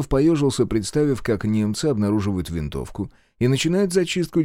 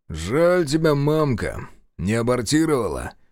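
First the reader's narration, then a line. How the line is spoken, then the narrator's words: Sighing. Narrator (Russian): вздохнул Шестаков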